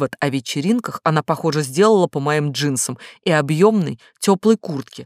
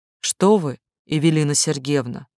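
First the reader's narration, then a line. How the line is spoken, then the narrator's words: Soft. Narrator (Russian): я говорила мягко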